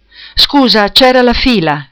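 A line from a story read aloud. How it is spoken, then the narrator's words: Sighing. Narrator (Italian): detto sospirando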